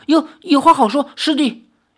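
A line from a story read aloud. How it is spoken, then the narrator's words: Panting, breathless. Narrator (Chinese): 智泽 喘着气，说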